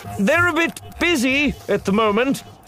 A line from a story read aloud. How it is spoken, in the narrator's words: Axel shouted back